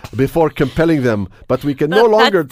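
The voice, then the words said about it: Put-on German-sounding accent. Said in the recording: “I should say this with a Belgian accent ... That's a German accent.”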